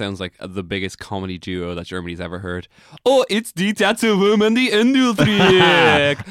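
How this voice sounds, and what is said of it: Usual voice. Nothing is said of it.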